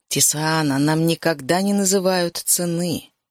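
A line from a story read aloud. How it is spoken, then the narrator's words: Plain. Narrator (Russian): сказал он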